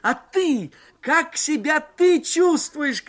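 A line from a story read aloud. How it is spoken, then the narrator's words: Shouting into phone. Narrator (Russian): кричал я в горячую трубку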